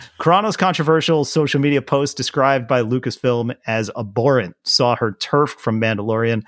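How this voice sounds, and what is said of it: Usual voice. Nothing is said of it.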